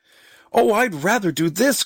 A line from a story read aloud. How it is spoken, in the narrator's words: cried